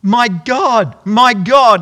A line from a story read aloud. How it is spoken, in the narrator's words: Jesus called out to the Father, he cried out